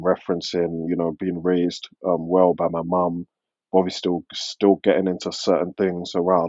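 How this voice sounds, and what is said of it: London British accent. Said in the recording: “your accent... you sound like very British... London accent”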